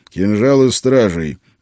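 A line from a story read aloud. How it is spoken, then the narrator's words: Angry. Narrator (Russian): зло произнес я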